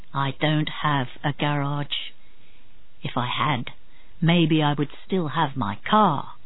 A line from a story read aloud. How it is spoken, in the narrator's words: In a low voice, Marlowe said